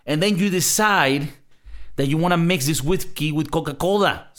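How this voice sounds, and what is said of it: Speaks with an accent. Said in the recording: “Sorry for my accent.”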